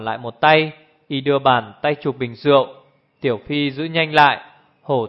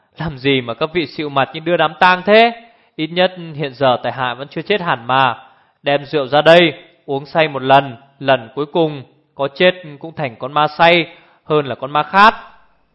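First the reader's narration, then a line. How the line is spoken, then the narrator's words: Laughing loudly. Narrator (Vietnamese): Bỗng Hồ Thiết Hoa cười lớn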